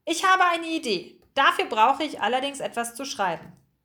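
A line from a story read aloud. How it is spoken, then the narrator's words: Calling out. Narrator (German): rief er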